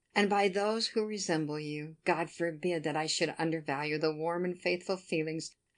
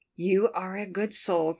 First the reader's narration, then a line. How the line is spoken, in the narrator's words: cried Captain Harville, quite affectionately